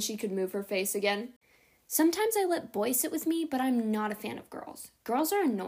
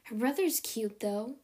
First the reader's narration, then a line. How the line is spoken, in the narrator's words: Marilla said, her voice turning dreamy